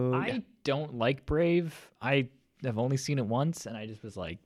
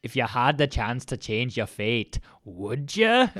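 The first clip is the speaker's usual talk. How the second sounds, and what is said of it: Bad put-on Scottish accent. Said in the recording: “this is just like, going to be a really bad Scottish accent”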